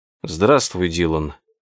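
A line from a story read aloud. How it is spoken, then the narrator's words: Muttered. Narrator (Russian): пробормотал Роско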